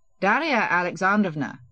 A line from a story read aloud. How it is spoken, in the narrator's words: said dryly